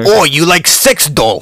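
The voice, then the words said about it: Mock Russian accent. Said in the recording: “Russian accent”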